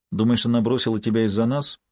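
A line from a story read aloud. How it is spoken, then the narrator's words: Calm question. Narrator (Russian): спокойно спросила Кармела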